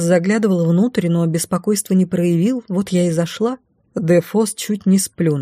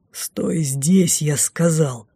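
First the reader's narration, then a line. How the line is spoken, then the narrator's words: Whispered growl. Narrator (Russian): шепотом рыкнул маг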